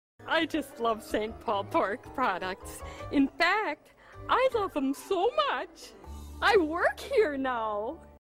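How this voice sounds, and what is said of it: Minnesota accent, slightly exaggerated. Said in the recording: “not a put upon accent. ... Like that is her accent. ... That maybe exaggerated a smidge, but this is Minnesota.”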